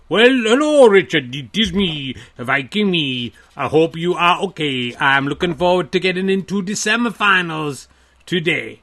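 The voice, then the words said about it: Put-on Scandinavian accent. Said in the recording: “So why is that accent suddenly? Why are you doing an impression of? ... sounded like the kind of a racist caricature that might appear in uh, an Asterix cartoon ... I was speaking in a Scandinavian accent”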